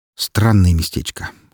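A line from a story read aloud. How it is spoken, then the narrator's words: Skeptical snort. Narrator (Russian): хмыкнул я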